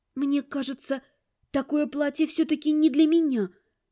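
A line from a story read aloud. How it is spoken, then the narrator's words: Timid speech. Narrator (Russian): робко сказала я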